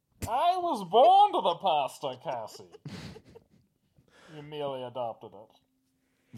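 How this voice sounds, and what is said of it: Garbled Bane impression, Jack Nicholson-like. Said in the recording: “does an impression of it ... That's a flawless impression ... that was ... Jack Nicholson ... We can't understand you”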